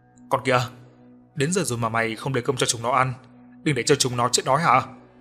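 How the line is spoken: Old man yelling. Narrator (Vietnamese): Lão A Câu hét lên

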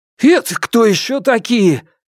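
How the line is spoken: Shouting. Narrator (Russian): крикнул я

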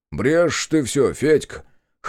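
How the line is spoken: Scoffing snort. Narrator (Russian): хмыкнул тот

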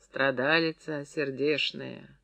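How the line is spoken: Sighing, pitying. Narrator (Russian): Пестемея вздохнула

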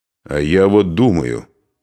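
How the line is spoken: Angry interruption. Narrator (Russian): сердито перебил князь

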